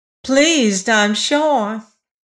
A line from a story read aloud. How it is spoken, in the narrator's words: she said in a high, clear voice